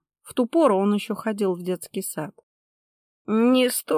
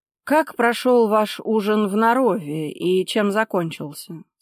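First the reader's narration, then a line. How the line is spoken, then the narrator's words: Plain. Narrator (Russian): спросил Гронский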